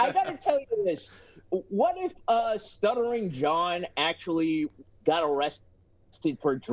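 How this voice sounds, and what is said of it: Usual voice. Nothing is said of it.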